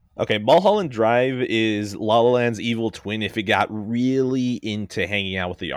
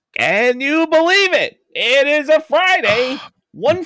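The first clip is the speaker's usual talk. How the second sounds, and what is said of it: Imitates another person's voice. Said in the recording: “That's a great impression. ... Mr. Lynch”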